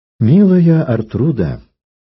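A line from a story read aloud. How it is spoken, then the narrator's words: Persuasive voice. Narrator (Russian): убеждающим голосом говорил Танкред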